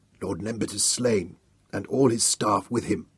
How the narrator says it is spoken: the captain told him hoarsely

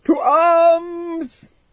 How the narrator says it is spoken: he screamed as he ran

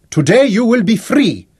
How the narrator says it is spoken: Raleigh shouted

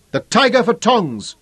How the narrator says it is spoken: yelled a voice

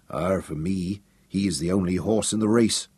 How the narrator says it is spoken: Big Daniel growled

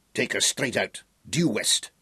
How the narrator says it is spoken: Cumbrae snapped

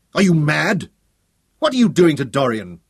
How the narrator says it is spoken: he asked, his voice shaking with rage

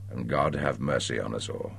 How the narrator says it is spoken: he said quietly, and then again under his breath

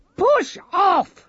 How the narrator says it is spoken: she shouted

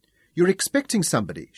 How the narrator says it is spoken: said

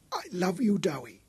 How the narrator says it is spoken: she gasped

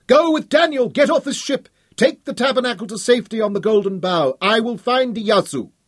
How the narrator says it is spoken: The flames were leaping up between them, and Hal yelled through them

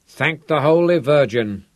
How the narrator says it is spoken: Da Silva grumbled

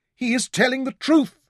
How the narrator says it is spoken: she cried aloud

